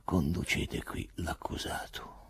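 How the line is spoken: Procurator saying quietly. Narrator (Italian): Il procuratore disse piano

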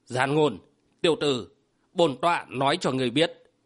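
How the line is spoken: Harsh, emphatic voice. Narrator (Vietnamese): Vô thần trưởng giáo gằn giọng

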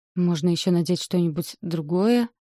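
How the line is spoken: Uncertain. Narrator (Russian): Неуверенно говорю я

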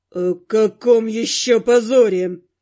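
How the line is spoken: Hissed. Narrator (Russian): прошипел Каст

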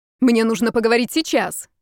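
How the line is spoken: Girl shouting. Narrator (Russian): выкрикнула девушка

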